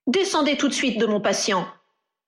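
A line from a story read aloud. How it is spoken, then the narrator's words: Healer's curt retort. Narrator (French): répliqua sèchement le guérisseur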